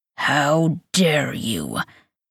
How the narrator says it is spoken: He growls

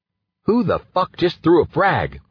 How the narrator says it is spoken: I yelled

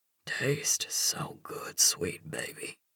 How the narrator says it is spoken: whispers against my lips

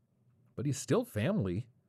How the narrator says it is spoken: said Mark

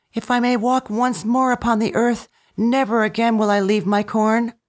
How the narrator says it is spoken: cried

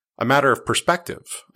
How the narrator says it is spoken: I said

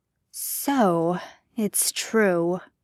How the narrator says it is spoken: Peter murmured, finally

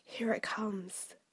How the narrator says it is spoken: Cecily whispered

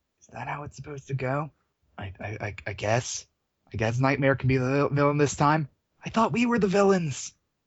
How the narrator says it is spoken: Killerella whispers to Supercrime

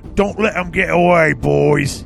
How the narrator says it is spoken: bellowed

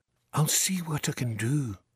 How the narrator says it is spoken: said Jerry softly

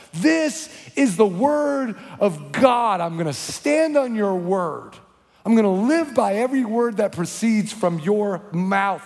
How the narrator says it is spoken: I yelled

